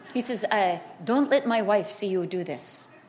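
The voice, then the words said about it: Attempted Yugoslavian accent. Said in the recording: “I don't know if that's a Yugoslavian accent, but just bear with me.”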